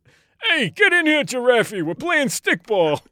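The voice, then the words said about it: Put-on Bronx accent. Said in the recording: “That was a perfect Bronx accent.”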